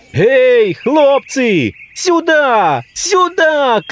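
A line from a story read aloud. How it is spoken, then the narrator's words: Shouting. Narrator (Russian): кричал он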